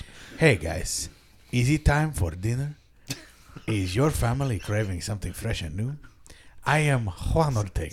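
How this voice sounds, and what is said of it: Put-on accent, commercial voice. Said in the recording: “He's doing an accent”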